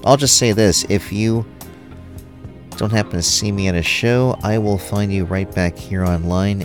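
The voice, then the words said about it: Strained, fading voice. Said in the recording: “My voice is going, and it's actually a little bit painful”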